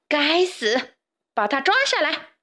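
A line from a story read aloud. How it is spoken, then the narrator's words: Furious shout. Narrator (Chinese): 玛丽王后最忍受不了 对卫士长大喊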